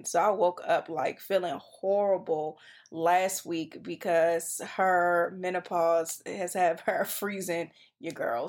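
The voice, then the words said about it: Congested, nasal voice. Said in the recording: “I don't know if you guys could still hear the congestion in my voice”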